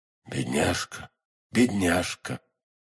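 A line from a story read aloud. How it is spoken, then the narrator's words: Hoarse whisper. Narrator (Russian): хриплым голосом шептал Атос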